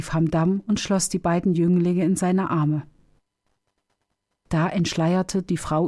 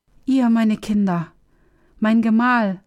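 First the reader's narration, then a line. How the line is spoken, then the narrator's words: Crying out, breaking into tears. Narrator (German): rief sie und brach in Tränen aus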